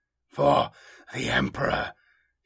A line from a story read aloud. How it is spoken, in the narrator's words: gasps, his body flaring with agony